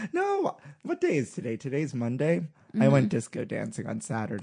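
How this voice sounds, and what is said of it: Slightly hoarse voice. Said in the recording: “you're a little hoarse ... I am a little hoarse”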